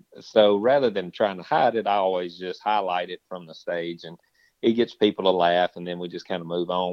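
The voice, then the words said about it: Deep, thick Southern accent. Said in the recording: “I have a very deep, thick Southern accent.”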